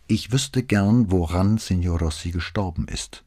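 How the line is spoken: Calm answer. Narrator (German): antwortete Brunetti ruhig

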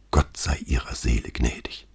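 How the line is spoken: Reverent whisper. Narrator (German): als wäre ihm nachträglich das Gebot der Pietät eingefallen, flüsterte er

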